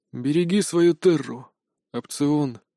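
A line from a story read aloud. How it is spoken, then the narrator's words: Quiet whisper. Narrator (Russian): тихо прошептал Лат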